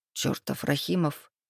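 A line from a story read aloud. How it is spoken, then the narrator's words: Through gritted teeth. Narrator (Russian): процедил Лука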